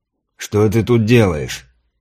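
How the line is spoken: Displeased question, Varangian. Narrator (Russian): Как всегда недовольным тоном поинтересовался варяг

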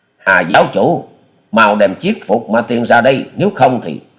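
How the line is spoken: Thunderous shout. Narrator (Vietnamese): Quyết Ma Thể Ghi quá nhân quát lên to như sấm

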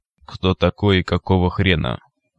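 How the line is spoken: Metallic device voice. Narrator (Russian): металлическим голосом осведомилось устройство

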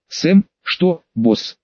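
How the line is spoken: Quiet sad reply. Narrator (Russian): тихо ответил грустный медтехник

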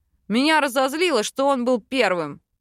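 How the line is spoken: Growled. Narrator (Russian): рыкнул дракон

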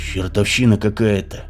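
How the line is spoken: Muttered. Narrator (Russian): пробормотал Сергей

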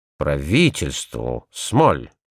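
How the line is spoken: Muttering. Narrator (Russian): пробормотал он

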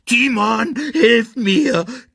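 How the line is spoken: Squeaking. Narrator (German): quiekte er

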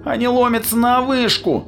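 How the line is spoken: Groaning. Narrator (Russian): простонал Джей

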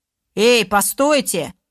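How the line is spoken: Loud, rough shout. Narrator (Russian): Громким грубым голосом выкрикнул кучер

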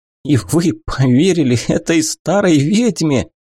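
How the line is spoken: Laughing scornfully. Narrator (Russian): Лорд расхохотался

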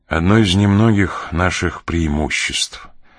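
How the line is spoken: Sad. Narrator (Russian): грустно проговорил он

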